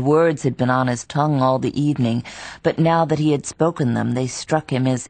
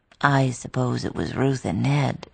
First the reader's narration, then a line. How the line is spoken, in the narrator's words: she said in a low voice, as though he had suddenly touched on something grave